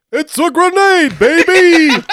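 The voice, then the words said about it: Imitates another person's voice. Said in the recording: “do the Dick Vitale voice”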